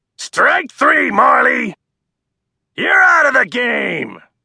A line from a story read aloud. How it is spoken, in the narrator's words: the umpire yelled